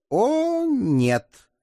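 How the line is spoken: Confident snort. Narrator (Russian): уверенно хмыкнула она

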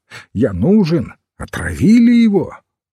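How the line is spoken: Shout from garden. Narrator (Russian): доктор Оман крикнул из сада

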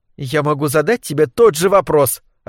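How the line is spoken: Snapping. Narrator (Russian): огрызнулась Лилия

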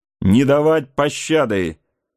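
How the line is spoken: Commanding shout in French. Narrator (Russian): по-французски крикнул один из преследователей, казалось, направлявший действия остальных

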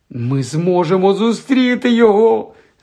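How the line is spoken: Squeaky voice. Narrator (Ukrainian): запищала Герміона

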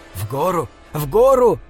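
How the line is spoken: Hoarse shouting. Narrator (Russian): хрипло кричал Бинабек

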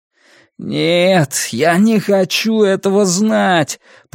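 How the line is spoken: Moaning. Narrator (Russian): простонал Ратти

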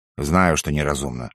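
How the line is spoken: Gruff frowning mutter. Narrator (Russian): хмурясь буркнул барон

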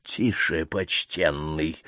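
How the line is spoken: Indignant close whisper. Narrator (Russian): услышал он близкий негодующий шепот

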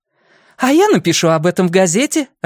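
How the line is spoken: Joyful announcement. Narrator (Russian): радостно объявила Джулия

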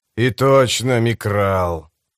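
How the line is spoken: Grumbling. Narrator (Russian): проворчал тот же голос

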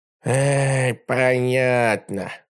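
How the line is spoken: Sighed. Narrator (Russian): вздохнул вожатый

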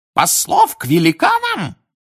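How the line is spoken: Shrill squeal. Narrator (Russian): взвизгнул Фадж, снова овладев даром речи

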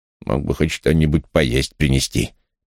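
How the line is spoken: Grumbling. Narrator (Russian): проворчала она

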